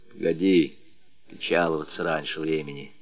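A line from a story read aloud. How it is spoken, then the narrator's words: Quiet remark. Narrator (Russian): тихонько заметил Матюшка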